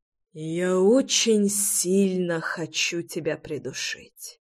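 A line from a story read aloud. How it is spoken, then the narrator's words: Exhaled, suppressing anger. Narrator (Russian): выдохнул Реми, гася злость и ярость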